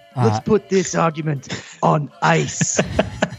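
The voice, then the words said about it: Imitates another person's voice. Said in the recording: “Give me your Schwarzenegger.”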